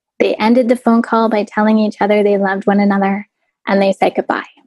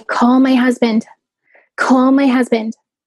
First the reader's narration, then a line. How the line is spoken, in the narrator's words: I pleaded